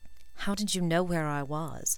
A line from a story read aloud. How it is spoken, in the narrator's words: he whispered